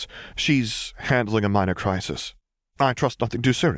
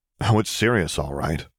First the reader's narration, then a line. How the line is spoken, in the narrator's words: muttered Jaina